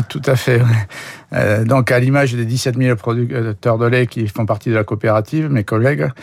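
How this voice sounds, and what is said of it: Slight regional French accent. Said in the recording (French): “producteur de lait en Aveyron. On entend un petit peu votre accent.”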